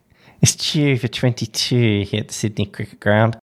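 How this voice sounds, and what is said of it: Impression of Australian cricket commentator. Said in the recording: “your Richie impersonation ... the doyen, the past doyen of Australian cricket”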